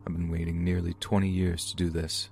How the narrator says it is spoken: he was reportedly heard to mutter

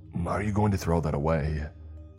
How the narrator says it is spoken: the man said gruffly

